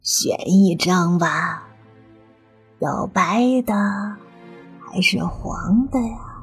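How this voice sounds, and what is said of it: Frightening, eerie ghostly voice. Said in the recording (Chinese): “一个可怕的声音说道”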